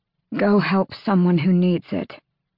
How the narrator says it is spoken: Aelin rasped

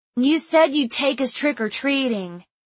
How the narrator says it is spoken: Jonah whined

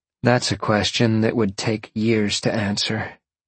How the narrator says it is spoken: Jolene sighed

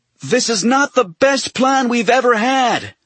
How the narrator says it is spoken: he shouted

